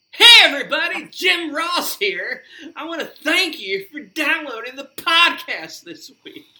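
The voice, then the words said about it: Imitates another person's voice, yelled. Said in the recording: “he would yell his hello ... doing a JR impression”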